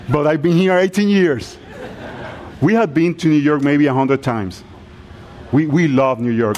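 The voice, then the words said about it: Strong foreign accent. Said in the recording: “I know by my accent you think I arrived last week.”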